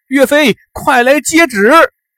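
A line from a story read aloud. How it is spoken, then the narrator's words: Joyful loud shout. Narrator (Chinese): 汤阴县令徐仁高兴的大叫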